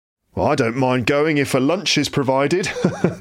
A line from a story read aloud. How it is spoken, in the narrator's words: laughed one gentleman